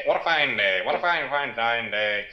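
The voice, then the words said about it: Put-on character voice. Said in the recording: “You do that voice so well.”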